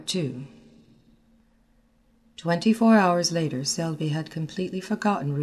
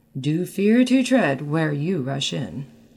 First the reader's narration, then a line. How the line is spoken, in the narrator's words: said Clifford blandly